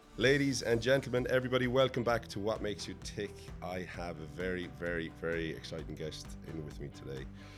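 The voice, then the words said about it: Irish accent, Dublin-leaning. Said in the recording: “a bit more of a Dublin accent than a Limerick accent”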